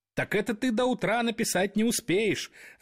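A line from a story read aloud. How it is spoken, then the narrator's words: Laughing. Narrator (Russian): рассмеялся Трамп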